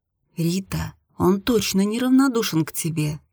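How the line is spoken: Quiet speech. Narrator (Russian): тихо сказала Карина

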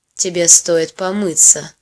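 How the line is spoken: With a smirk. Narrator (Russian): хмыкнув, произносит он

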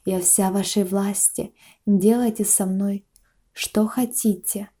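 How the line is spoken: Whisper. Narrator (Russian): шептала она

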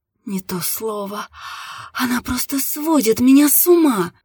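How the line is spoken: Woman groaning. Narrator (Russian): застонала женщина

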